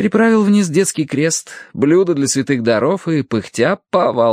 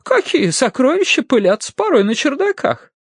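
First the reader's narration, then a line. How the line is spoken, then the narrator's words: Laughing. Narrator (Russian): Рассмеявшись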